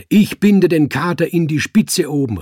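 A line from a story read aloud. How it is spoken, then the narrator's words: Called out. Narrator (German): rief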